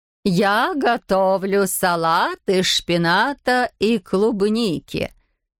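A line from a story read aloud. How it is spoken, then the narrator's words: Singsong. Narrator (Russian): нараспев проговорила Матер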